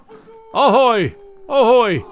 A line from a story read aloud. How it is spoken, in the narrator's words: he shouted